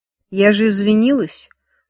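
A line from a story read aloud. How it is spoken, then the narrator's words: Dry reply. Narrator (Russian): сухо ответила Эми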